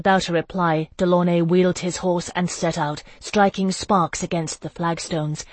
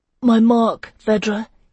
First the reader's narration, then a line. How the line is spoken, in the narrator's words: gasped